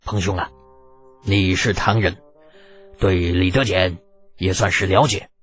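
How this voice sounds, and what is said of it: Speaking quietly, in a low voice. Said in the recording (Chinese): “小声道”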